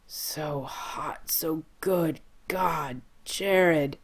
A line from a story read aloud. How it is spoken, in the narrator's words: Jensen moans steamily against the curve of Jared's neck